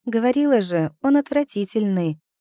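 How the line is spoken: Sighing. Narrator (Russian): вздохнула подруга

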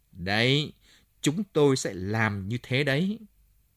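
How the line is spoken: Hissed through teeth. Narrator (Vietnamese): Bun Chúc nói rít rít qua kẽ răng

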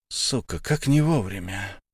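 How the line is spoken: Whisper. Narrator (Russian): прошептал Илья, не сдержавшись

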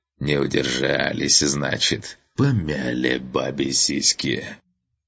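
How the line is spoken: Hoarse rasp, burned corpse. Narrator (Russian): Лежащий у его ног обгоревший труп вдруг заворочился и прохрипел

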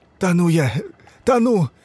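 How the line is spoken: Hoarse wheeze. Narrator (Russian): Прохрипел Сашка

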